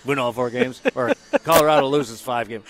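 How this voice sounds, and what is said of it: Imitates another person's voice. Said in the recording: “my impression of somebody said, well, it's easy”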